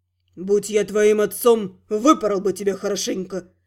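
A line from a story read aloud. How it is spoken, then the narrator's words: Through gritted teeth. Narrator (Russian): Процедил, наконец, Гал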